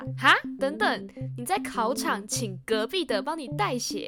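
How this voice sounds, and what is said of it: Loud, exclaiming voice. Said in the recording (Chinese): “你小声一点啦”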